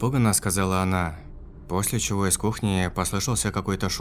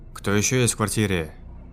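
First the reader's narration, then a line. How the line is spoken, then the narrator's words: Menacing question. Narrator (Russian): грозно спросил я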